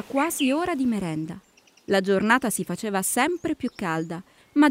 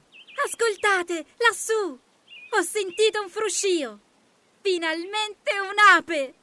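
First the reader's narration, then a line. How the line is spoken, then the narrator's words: Ladybug shouting. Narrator (Italian): gridò la coccinella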